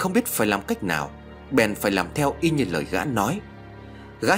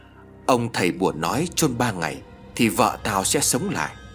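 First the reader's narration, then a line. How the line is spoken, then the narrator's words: Muttering. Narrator (Vietnamese): miệng lẩm bẩm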